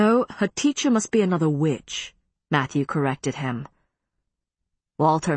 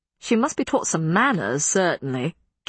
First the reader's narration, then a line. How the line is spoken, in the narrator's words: Kit grumbled